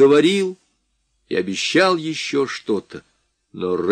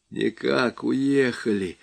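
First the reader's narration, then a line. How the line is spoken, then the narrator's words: Feverish muttering. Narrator (Russian): лихорадочно бормотал Барбридж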